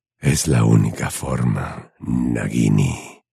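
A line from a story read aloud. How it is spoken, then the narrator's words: Whisper. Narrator (Spanish): susurró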